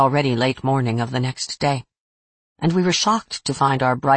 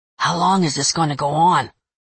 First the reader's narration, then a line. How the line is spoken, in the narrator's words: Joe whispered to me